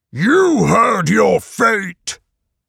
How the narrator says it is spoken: Python boomed

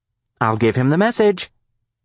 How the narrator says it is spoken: Marcy said brightly

